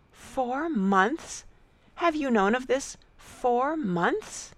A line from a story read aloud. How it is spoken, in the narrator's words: After a pause of wonder, she exclaimed